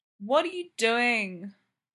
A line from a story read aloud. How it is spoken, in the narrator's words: Charles moans